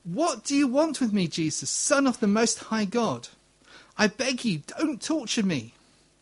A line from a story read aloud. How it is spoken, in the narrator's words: cried out shouting at the top of his voice